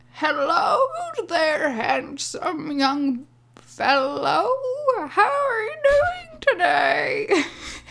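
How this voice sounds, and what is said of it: Old lady character voice. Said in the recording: “old lady voice”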